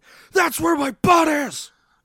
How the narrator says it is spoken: scream

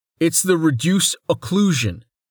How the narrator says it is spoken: Rain called over the growing roar

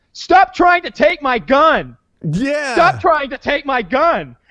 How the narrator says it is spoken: the cop is yelling, he's yelling

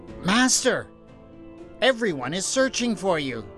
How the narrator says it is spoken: Simon was so relieved when he saw him that he cried out

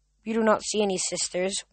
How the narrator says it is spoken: one of the girls said coldly

